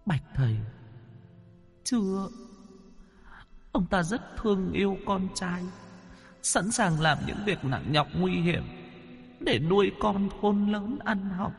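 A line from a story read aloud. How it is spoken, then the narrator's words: Whimpering, near tears. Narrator (Vietnamese): Nữ quỷ mếu máo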